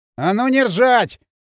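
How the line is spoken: Angry barking. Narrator (Russian): рявкнул он, сжимая кулаки

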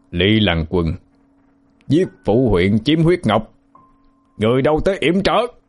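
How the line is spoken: Sudden loud shout. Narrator (Vietnamese): Hắn bất ngờ há miệng hét lớn

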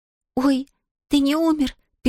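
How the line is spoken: Relieved squeak. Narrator (Russian): пискнула Зия с облегчением, увидев его живым

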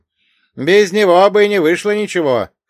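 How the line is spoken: Shout. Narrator (Russian): крикнул Василий

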